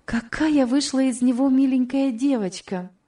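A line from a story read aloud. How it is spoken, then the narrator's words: Exclaimed. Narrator (Russian): воскликнула Элиза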